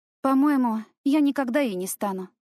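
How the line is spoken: Sighing. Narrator (Russian): вздохнула я

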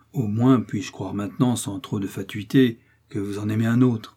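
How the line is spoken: Young man, caressing tone. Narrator (French): dit le jeune homme d'un ton caressant

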